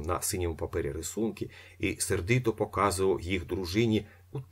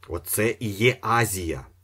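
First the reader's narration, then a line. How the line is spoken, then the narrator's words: Angry. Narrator (Ukrainian): сердито сказав Трюхов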